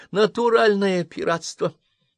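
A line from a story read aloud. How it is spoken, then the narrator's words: Nasal complaint. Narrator (Russian): гнусаво пожаловалась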